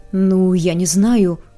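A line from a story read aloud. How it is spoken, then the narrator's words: Sullen mumble. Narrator (Russian): угрюмо промямлил Тридуэлл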